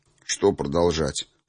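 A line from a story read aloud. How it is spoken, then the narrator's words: Grumbling mutter. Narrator (Russian): буркнул я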